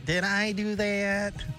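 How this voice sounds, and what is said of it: Steve Urkel impression. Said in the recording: “do that great impression you do with that guy ... This is the nerd from Family Matters ... it's Urkel”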